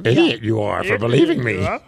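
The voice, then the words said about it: Yoda impression. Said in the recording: “I'm like almost picturing like a Yoda voice”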